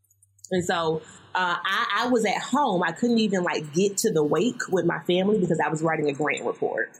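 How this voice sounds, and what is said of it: Southern American accent. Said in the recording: “I'm from the South, y'all. You may hear it in my voice.”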